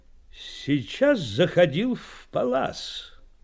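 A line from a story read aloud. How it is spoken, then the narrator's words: Loud speech. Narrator (Russian): громко заговорил он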